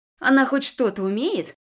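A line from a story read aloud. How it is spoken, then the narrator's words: Girl's scoffing snort. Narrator (Russian): хмыкнула незнакомая мне девчонка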